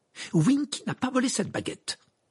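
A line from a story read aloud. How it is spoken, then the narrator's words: Shrill exclamation. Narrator (French): s'exclama Hermione d'une voix perçante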